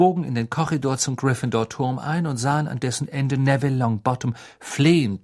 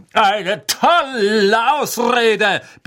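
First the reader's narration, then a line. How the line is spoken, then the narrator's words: Bellowing. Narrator (German): brüllte Sir Cadogan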